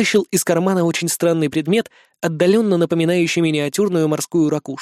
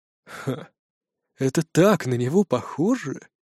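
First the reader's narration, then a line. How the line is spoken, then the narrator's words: Sighing. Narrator (Russian): вздохнул Юм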